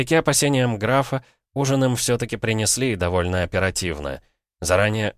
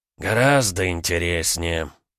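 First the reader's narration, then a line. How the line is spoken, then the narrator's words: Gloomy prince. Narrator (Russian): мрачно проговорил князь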